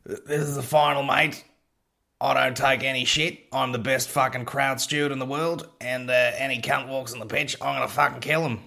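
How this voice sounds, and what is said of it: Put-on Australian accent. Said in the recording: “I don't know why I'm doing that accent. ... Let's just let him be Australian.”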